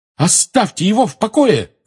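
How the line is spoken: Shout. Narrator (Russian): крикнула Лили

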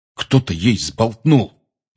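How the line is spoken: Angry. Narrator (Russian): сердито сказал Рон

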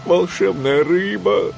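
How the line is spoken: Pleading. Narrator (Russian): взмолился

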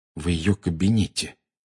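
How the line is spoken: Quiet. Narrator (Russian): тихо произнес Гарри

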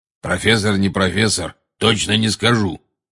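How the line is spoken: Growled. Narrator (Russian): прорычал голос

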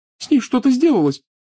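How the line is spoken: Sobbing. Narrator (Russian): всхлипывала Лиана

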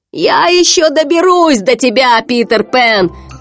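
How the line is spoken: Shouted after them. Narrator (Russian): крикнул им вслед Крюк

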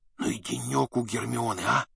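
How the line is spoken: Stunned whisper. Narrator (Russian): шепнул Гарри ошарашенный Рон

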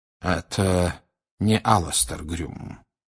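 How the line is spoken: Quiet. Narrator (Russian): тихо сказал Дамблдор

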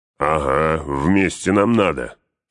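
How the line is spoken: Growled. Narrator (Russian): прорычал Углук

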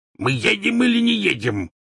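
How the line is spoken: Barking. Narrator (Russian): рявкнул ... дядя Вернон

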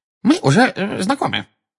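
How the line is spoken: Excited squeak. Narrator (Russian): пропищал чуть что приходящий в волнение Дингл

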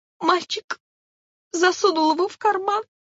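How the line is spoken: Sobbing dragonfly. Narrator (Russian): ответила стрекоза, рыдая

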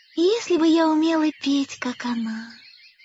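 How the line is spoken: Wistful sigh. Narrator (Russian): вздохнула Майя

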